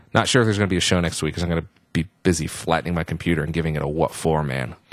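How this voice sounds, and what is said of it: Worn-out, strained voice. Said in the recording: “As you can probably tell by my voice, it's over the edge.”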